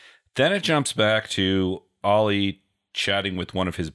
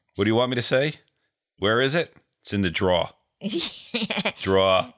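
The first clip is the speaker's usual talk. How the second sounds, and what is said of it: Exaggerated New York accent. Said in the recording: “I'm a sucker when your New York accent comes out. I always love it.”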